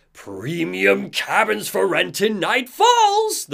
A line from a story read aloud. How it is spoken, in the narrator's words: the figure shouts